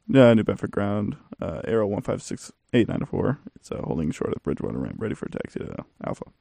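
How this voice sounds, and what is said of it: Mumbled radio pilot voice. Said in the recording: “do a pilot voice ... That was my pilot voice ... it's grumble”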